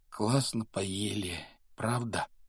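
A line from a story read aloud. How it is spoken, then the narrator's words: Muffled mumbling behind curtains. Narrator (Russian): донеслось до Гарри бормотание Рона, скрытого от него тяжелыми шторами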